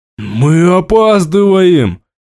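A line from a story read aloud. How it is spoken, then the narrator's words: Wild roar. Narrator (Russian): Диким голосом взревел он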